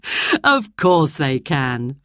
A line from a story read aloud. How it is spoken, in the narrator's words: Father laughed